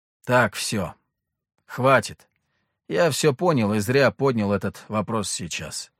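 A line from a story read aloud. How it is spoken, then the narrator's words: Gloomy. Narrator (Russian): мрачно проговорил я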